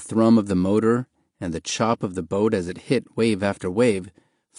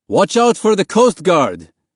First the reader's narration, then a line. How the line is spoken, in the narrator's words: the big man next to Mahmoud shouted over the noise